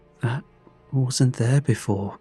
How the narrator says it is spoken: Jake whispered

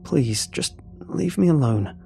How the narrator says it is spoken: I begged in a hushed tone

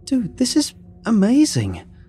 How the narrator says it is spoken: I blurted out

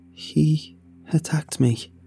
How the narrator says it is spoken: said shakily, fear

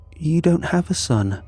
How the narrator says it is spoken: she said, her voice gentle

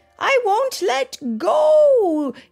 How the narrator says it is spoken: he shouted

